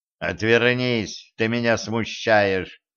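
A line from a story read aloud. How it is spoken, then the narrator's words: Mocking command. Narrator (Russian): Насмешливо велел он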